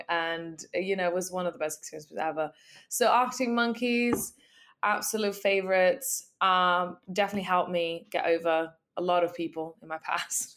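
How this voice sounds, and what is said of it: Hoarse, strained voice. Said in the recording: “my voice is currently fucked, because I was in the crowd screaming so loud every song.”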